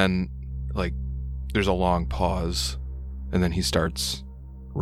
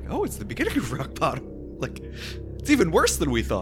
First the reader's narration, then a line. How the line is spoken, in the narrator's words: Randolph laughs to Thalias